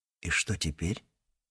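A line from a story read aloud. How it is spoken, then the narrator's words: Quiet question. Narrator (Russian): Джек тихонько спросил у Элизабет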